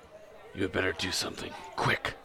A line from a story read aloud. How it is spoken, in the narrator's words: whispered Strider in his ear